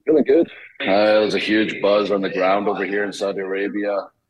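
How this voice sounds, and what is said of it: Scottish accent. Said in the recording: “love the accent, the Scottish warrior”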